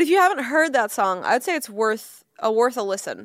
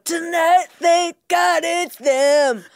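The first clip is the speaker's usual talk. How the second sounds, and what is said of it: Sung impression of a rock singer. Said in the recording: “to hear Bono go ... That was a perfect impression.”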